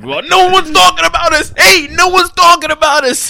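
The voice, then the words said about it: Exaggerated put-on New York accent. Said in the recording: “why is he from New York in your impersonation? ... That was a crazy accent.”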